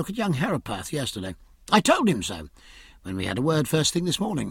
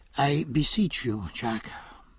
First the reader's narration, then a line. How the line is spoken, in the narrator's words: said Stephen wearily